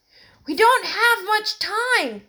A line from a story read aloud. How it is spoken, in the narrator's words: Terence shouted to them